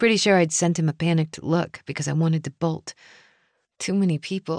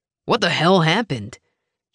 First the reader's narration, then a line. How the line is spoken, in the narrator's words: barked